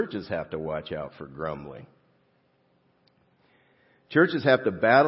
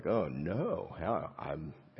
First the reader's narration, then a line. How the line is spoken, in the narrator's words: grumble inside